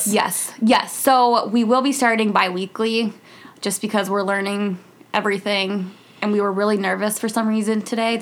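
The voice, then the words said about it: Shaky nervous voice. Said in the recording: “my voice is so shaky”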